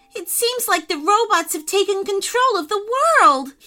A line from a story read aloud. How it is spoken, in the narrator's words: cried